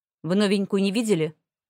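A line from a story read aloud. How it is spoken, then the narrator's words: Bark. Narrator (Russian): рявкнул он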